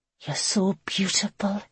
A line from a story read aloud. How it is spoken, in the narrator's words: she whispered in awe